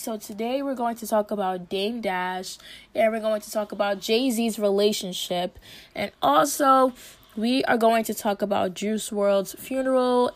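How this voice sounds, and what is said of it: Rough, ill-sounding voice. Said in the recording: “excuse my voice, I've been literally sick all week ... I literally couldn't speak”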